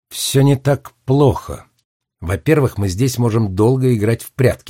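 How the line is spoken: Plain. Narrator (Russian): сказала она

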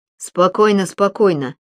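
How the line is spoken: Plain. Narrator (Russian): сказал доктор Емец

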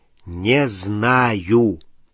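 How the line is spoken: Drawn-out drawl. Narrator (Russian): протянул Рон

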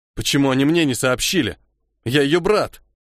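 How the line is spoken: Angry growl. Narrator (Russian): зло сплюнул и прорычал

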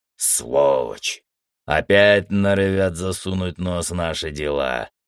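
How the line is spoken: Displeased grumble. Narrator (Russian): недовольно проворчал Матиус

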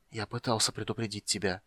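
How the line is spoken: Whispered. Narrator (Russian): прошептал юноша

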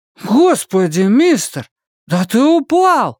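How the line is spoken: Exclamation. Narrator (Russian): воскликнул Том Каллен

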